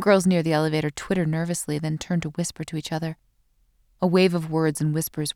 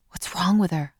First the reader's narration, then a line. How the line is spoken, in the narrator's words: I hear someone nearby whisper